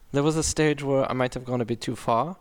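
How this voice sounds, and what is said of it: Put-on German accent. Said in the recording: “do the German ... every time I've done the German accent, it's like a very different part of Germany”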